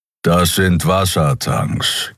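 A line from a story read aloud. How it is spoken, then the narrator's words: Growled. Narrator (German): knurrte Kero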